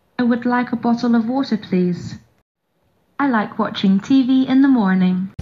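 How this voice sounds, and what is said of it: New Zealand accent. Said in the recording (Portuguese): “sotaque um pouquinho mais britânico, que é um sotaque de, da Nova Zelândia”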